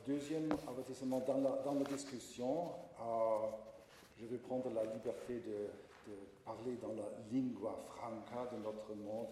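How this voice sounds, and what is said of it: Strong foreign accent in French. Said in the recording (French): “mon accent barbarique”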